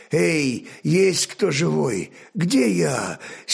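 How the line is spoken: Hoarse quiet call. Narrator (Russian): сиплым простуженным голосом негромко позвал он

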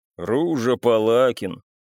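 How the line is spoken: Deep, mournful voice. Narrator (Russian): пробасил доктор так же скорбно, как говорил Бесик

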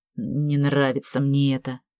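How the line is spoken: Muttered. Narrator (Russian): пробормотал он

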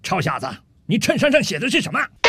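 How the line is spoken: Slow, unhurried. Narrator (Chinese): 陆军大兵慢悠悠地对着吧台里的酒保说道

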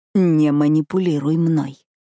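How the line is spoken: Growled. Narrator (Russian): прорычал

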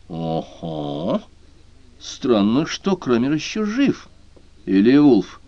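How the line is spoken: Growled, barely restrained. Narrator (Russian): Крамер прорычал, с трудом сдерживаясь

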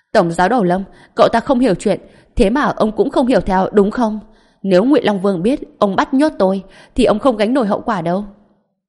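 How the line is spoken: Anxious loud yell. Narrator (Vietnamese): Vừa nghe nói mình sắp bị nhốt, Lưu Đức Bảo nhất thời lo lắng hét lớn

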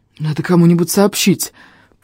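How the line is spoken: Breathless wheeze. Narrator (Russian): просипел я, отдышавшись

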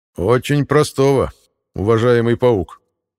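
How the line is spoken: Plain. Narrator (Russian): ответил ему князь

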